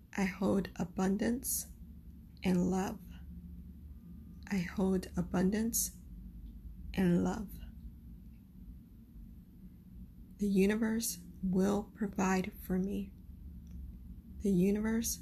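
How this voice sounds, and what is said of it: Noticeable accent with stuttering. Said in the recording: “giggled at my accent and my constant stuttering”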